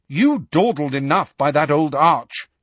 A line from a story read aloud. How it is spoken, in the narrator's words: she said crossly